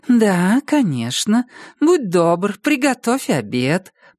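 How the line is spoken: Purring. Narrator (Russian): промурлыкала она

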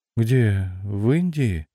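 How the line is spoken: Sleepy young woman's question. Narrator (Russian): сонно спросила девица

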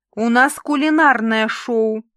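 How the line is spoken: Wailing howl. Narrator (Russian): взвыла Валечка

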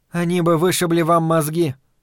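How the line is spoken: Even, flat. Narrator (Russian): ровным голосом вставила Дейна Джергенс

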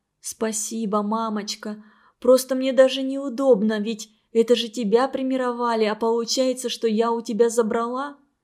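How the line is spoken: Quiet. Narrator (Russian): Светлана тихо сказала

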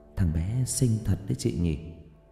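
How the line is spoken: Girl, soft laugh. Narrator (Vietnamese): Cô gái khẽ cười

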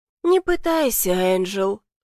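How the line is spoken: Sighing. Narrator (Russian): вздохнула леди Моверли

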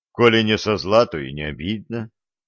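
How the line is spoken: Calm. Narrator (Russian): спокойно ответил Середин

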